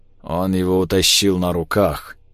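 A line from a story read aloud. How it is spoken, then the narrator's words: Muffled flat voice. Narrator (Russian): глухо резюмировал Климов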